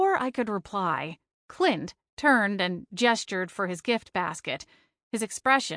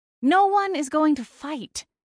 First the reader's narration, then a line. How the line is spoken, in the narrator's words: snapped